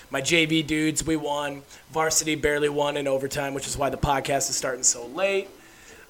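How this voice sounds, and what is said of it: Raspy voice. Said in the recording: “I coached a lacrosse game tonight, which is why my voice probably sounds raspy.”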